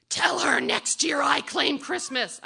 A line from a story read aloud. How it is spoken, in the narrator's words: she screams back